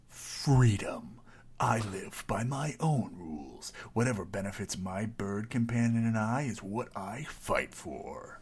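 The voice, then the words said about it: Dramatic movie trailer voice. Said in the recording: “that was a good commercial voice, trailer voice.”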